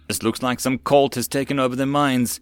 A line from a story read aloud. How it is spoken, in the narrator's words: said urgently